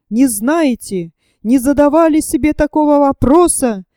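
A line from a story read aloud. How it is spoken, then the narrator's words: Shouting with ironic pathos. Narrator (Russian): прокричал он с патетической иронией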